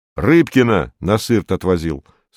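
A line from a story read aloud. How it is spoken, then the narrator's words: Plain. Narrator (Russian): сказал Сергей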